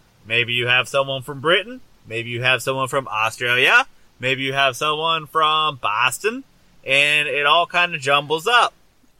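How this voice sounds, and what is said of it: Poor put-on Australian accent. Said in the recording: “you sound like you can't do a proper Australian accent.”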